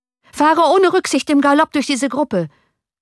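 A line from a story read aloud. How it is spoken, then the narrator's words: Shouting to coachman. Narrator (German): schrie Johann dem Kutscher zu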